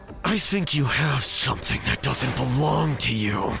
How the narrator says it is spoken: said in a raspy, spine-chilling voice

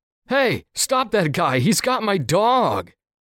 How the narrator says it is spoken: Behind me, I could hear the guy shout

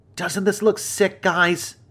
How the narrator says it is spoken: yelled out

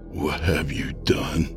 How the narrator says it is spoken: I whispered, barely able to find my voice

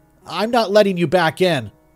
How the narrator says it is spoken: I hollered

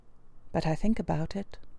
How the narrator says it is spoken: added pathetically in a lower tone

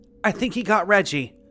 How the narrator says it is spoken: one of them said, still gasping between words

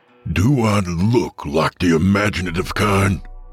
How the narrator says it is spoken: Hank growled

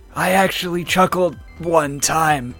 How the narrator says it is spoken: In his death throes, Knuckles said under his breath

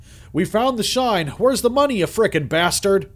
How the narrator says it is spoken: yelled the giant man

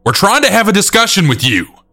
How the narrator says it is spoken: our area manager saying loudly

